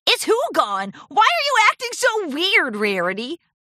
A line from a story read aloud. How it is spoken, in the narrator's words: Rainbow Dash laughed